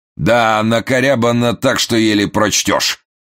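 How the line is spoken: Deep bass voice. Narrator (Russian): пробасил миллионщик

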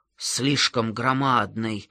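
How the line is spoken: Mumbling. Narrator (Russian): бормотал Гердер

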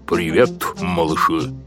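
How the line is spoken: Loud, rumbling voice. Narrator (Russian): сказал он громким, ракочущим голосом

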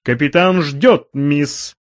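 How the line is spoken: Firm. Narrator (Russian): произнес он твердым голосом

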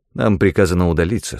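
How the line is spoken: Plain. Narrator (Russian): сказал я

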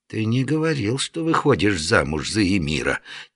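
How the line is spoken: Quiet, through teeth. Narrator (Russian): тихо процедил Дамулло

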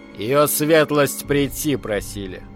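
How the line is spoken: Deep bass voice. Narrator (Russian): басом проговорил карлик

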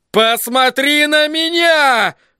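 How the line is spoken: Sobbing. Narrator (Russian): повторил он, сотрясаясь в рыданиях

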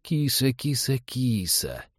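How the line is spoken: Coaxing coo. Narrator (Russian): вкрадчиво заворковал он

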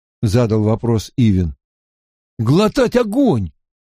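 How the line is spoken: Exclaiming. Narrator (Russian): воскликнул Мэтт

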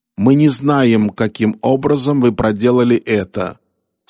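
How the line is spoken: Calm reply. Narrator (Russian): спокойно ответил сикх

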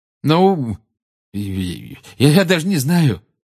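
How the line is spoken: Flustered mumble. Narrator (Russian): промямлил Гарри, которого эта просьба о поддержке привела в смятение

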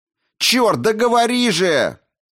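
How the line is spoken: Yelling. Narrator (Russian): заорала Дженсен

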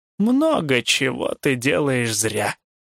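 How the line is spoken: Annoyed grumble. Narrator (Russian): проворчал Хаген досадливо

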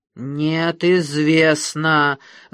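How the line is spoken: Growling. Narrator (Russian): зарычал Доркас

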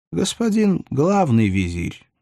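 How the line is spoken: Soft correction. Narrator (Russian): мягко поправил его толстяк

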